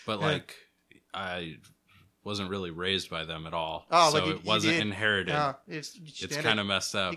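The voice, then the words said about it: Slight Minnesota accent. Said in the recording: “You got a weird little Minnesota in your accent ... you totally got a little Minnesota in your voice”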